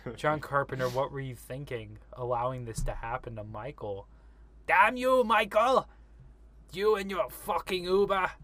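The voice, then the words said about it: A deliberately poor imitated voice. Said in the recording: “That was my horrible impression of Loomis.”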